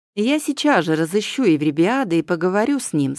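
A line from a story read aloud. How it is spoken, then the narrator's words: Plain. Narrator (Russian): сказал он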